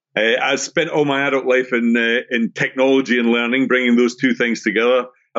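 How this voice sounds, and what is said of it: Scottish accent. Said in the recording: “if you have an ear for accents, I'm originally from Scotland”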